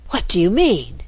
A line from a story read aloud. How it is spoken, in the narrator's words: the Rat gasped out